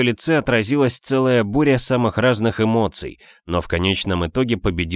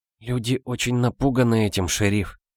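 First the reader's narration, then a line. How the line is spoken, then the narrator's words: Whispered. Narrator (Russian): прошептала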